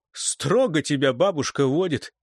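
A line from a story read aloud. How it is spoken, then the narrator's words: Laughing. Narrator (Russian): посмеялся Кайтер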